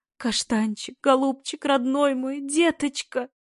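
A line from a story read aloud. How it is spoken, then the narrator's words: Sobbing woman. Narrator (Russian): Прорыдала несчастная женщина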